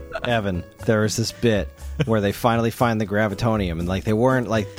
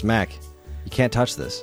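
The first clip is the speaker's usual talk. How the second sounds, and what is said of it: Deadpan straight-faced delivery. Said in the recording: “as deadpan as you just did it”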